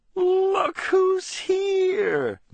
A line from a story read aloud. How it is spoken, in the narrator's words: Missy squealed